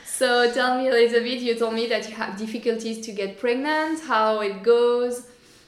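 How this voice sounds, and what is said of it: Non-native English accent. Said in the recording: “it's in English. So sorry for my accent.”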